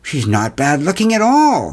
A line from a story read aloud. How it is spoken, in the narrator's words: exclaimed